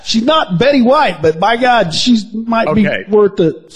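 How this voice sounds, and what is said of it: Usual voice. Nothing is said of it.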